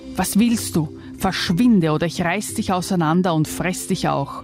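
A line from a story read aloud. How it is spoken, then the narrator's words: Monster hissing. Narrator (German): zischelte das Ungeheuer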